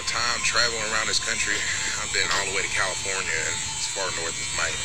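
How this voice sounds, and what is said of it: Southern US country accent. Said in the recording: “having a country accent ... I'm clearly from the south ... you got a real southern accent”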